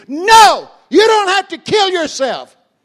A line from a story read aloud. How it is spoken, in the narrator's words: I screamed